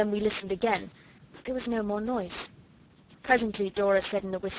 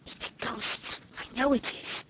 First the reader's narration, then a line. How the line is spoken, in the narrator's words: Noel whispered